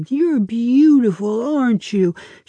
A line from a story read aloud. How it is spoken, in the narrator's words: she trilled in the melodic voice she uses for things with tails